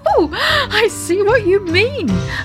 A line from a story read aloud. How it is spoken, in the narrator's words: laughed Daddy Ted